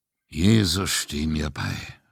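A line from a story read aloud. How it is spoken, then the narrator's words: Murmuring. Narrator (German): murmelte Raffi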